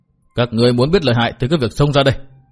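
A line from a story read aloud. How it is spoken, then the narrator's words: Furious, seething. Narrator (Vietnamese): Hứa Thiên Long tức giận đến hai mắt như nổ lửa, hầm hực nói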